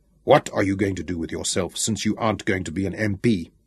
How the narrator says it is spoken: addressed sternly

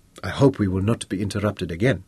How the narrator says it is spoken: Moses said quietly

